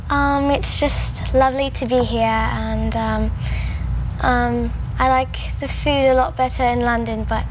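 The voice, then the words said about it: Put-on British accent. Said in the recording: “you learned a British accent ... make believe you're a young British lassie ... you would turn on that British accent”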